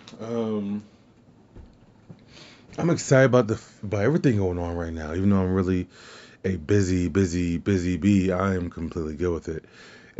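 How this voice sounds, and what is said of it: Hoarse, partly lost voice. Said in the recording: “I did lose my voice. ... Just yelling at people”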